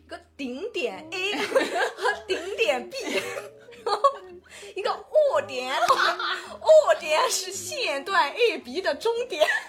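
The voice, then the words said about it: Imitated Anhui-accented Mandarin. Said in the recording (Chinese): “我之前学这段学的真是惟妙惟肖，就是他好像是安徽，还不知道是哪里的口音”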